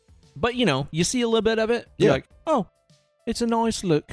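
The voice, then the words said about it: Put-on British accent. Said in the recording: “Where'd the British accent come from?”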